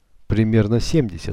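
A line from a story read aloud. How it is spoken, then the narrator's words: Plain. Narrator (Russian): ответил Калина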